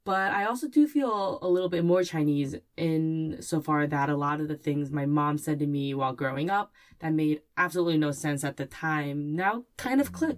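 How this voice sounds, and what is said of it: American English accent. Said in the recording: “I apparently have the most American accent a lot of Chinese people I've ever heard”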